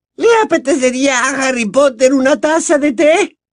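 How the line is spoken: Very loud squeal over sobbing. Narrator (Spanish): chilló bien alto, por encima de los sollozos de Winky

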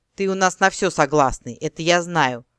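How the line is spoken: Chuckling generous boss. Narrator (Russian): хохотнуло расщедрившееся начальство

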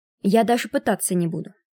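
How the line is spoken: Plain. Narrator (Russian): сказала Если

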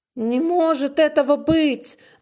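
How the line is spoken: Exclaiming. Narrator (Russian): воскликнула она

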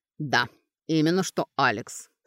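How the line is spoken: Grumbling herbalist. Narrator (Russian): проворчал травник

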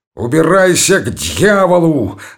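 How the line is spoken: Sudden yell. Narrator (Russian): заорал вдруг Золотухин

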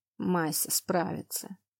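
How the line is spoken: Dull, muffled. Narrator (Russian): глухо отозвался он

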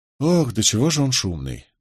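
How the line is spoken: Weary sigh. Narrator (Russian): вздохнул Нетти, слегка утомленный бурным темпераментом приятеля

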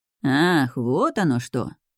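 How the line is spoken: Drawn-out. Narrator (Russian): протянул Кнот

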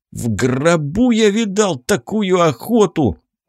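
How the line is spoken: Groan. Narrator (Russian): простонал Арсений

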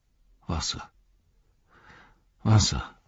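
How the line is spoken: Murmured. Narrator (German): murmelte Sam

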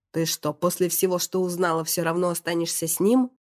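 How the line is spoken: Growling. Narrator (Russian): прорычал Максим

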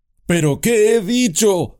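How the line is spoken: Shouted. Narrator (Spanish): gritó

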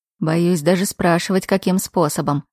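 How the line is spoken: Wry grunt, duke. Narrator (Russian): хмыкнул герцог

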